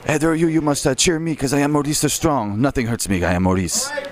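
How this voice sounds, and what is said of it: Put-on French accent. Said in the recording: “You do a French accent for Maurice? ... I do a French accent.”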